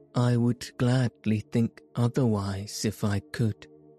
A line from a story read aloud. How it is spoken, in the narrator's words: answered